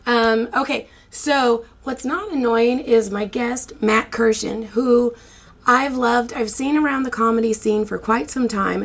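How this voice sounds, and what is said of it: Congested, stuffy voice. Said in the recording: “I thought my voice was going to be better, but hey, guess what? It's not. So I decided to get a sinus infection”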